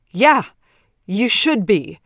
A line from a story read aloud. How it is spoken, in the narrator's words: Ted shouts